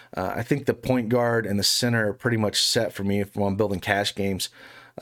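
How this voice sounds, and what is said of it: Raspy, strained voice. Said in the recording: “if my voice can hold up ... my raspy voice”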